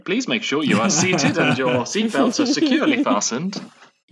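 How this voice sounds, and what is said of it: Cabin crew safety announcement voice. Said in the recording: “the voice start to do the cabin crew safety announcement”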